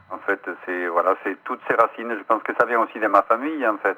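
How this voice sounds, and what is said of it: Slight foreign accent in French. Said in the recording (French): “avec son petit accent”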